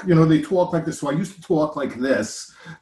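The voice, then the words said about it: Long Island bridge-and-tunnel accent. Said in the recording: “a bridge and tunnel accent in New York ... Long Island ... where you barely get the words out because you're exhausted”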